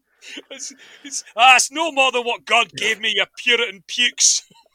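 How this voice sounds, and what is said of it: Scottish cartoon character voice. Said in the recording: “my Willy impression's better than my generic Scottish impression”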